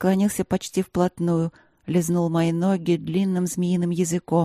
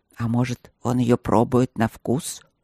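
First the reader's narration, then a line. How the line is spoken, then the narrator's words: Displeased grumble. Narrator (Russian): недовольно проворчал друг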